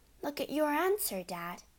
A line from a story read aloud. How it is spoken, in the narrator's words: Matilda said gently